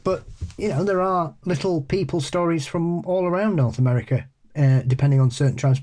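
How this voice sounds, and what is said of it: Boston accent. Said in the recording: “my awful Boston accent”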